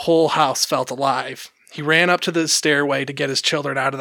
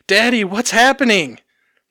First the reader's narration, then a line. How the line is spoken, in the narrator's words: his daughter was screaming